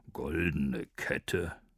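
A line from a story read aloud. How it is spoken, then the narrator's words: Sudden grumble from behind. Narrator (German): brummte es plötzlich hinter ihm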